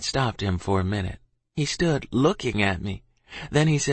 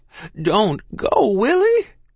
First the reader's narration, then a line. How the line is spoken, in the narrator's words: she cried